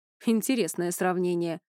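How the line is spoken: Wry snort. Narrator (Russian): хмыкнул Иней

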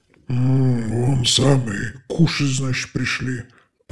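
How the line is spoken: Hoarse voice behind door. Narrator (Russian): прохрипели за дверью

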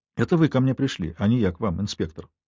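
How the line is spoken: Cold. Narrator (Russian): холодно напомнила я ему

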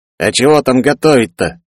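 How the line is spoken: Snorted. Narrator (Russian): Фыркнул начальник блокпоста

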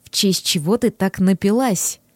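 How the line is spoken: Very quiet question. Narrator (Russian): Очень тихим голосом спросил он невесту

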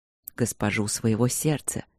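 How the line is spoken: Very quiet. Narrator (Russian): сказал он очень тихо

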